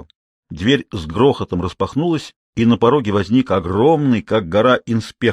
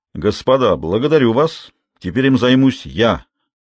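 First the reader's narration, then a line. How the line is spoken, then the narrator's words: Growling. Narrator (Russian): прорычал инспектор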